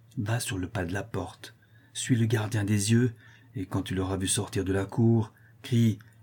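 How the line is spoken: Said quietly. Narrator (French): il dit tout bas

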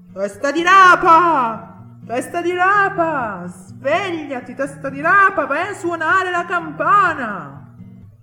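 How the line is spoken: Shouting. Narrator (Italian): iniziò a gridare

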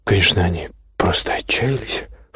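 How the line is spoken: Low mutter. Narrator (Russian): вполголоса пробормотала другая машинистка Эльза

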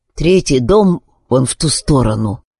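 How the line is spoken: Hoarse woman's voice. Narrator (Russian): хрипло проговорила женщина

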